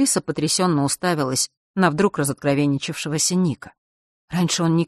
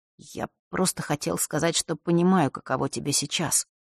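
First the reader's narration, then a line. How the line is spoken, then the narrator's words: Mumbling. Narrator (Russian): забормотал он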